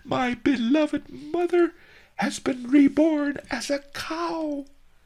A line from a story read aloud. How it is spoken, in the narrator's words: he screeched